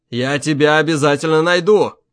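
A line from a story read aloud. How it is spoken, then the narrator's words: Shouting. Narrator (Russian): крикнул он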